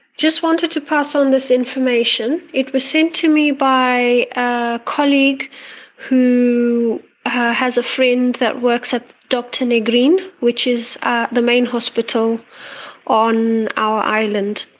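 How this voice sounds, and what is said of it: Antipodean, Australian or South African accent. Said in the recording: “sounds a bit like an Australian accent, but it might also be South African's, an Antipodean twang to this lady's accent.”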